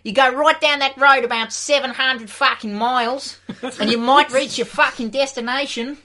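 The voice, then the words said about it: Put-on Australian accent. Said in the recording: “If you want directions out here ... Man, I've got an Australian girlfriend”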